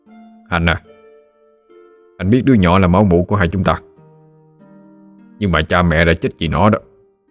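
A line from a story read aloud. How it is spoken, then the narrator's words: Harsh, strained. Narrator (Vietnamese): Ông gằn giọng nói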